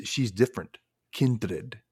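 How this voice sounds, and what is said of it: Put-on Dracula accent. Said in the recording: “I don't know why I did that accent. ... You have to. It's Dracula.”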